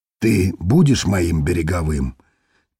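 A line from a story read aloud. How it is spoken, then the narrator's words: Quiet question. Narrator (Russian): тихо спросил Рафом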